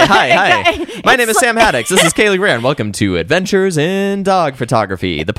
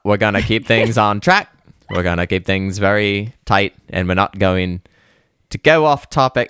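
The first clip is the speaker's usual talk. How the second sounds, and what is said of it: Put-on Cockney British accent. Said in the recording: “You started to go British with the Maine, the rural Maine... I always just slip into a quick Cockney chimney sweep accent”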